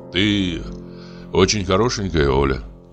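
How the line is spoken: Sighing. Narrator (Russian): вздохнул я

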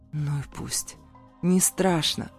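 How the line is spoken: Rumbling, then hoarse. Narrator (Russian): пророкотал Зейн и прохрипел

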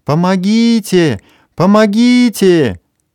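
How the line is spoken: Sudden frantic scream. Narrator (Russian): вдруг истошно закричала

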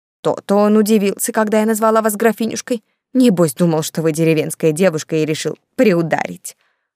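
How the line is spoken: Snorting old aunt. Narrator (Russian): фыркнула тетушка Ланжина

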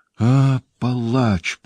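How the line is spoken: Moaning. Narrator (Russian): простонала Люсиль

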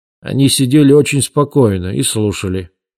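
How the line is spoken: Plain. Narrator (Russian): сказал полковник

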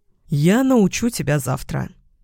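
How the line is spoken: Promising, trying to sound calm. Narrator (Russian): пообещал я, стараясь выглядеть спокойно

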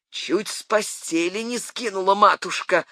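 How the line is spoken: Grumbling. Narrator (Russian): ворчал Данилыч

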